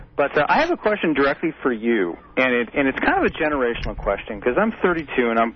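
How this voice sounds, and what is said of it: Muffled, congested voice from cold. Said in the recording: “I have a cold, so it's just a little muffled”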